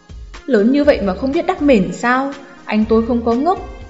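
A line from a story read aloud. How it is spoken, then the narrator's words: Gruff irritable. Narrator (Vietnamese): Giọng điệu Lục tiểu đệ trước sau vẫn cộc cằn cáu kỉnh nói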